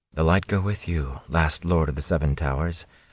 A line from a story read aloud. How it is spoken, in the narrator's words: Moraine said almost too softly for Rand to hear